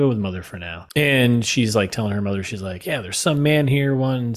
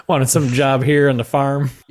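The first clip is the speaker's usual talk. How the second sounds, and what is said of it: Put-on Southern accent. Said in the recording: “I'm going to a Southern accent.”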